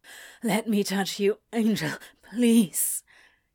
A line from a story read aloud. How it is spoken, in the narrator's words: he gasped into Ezra's mouth that still hovered over his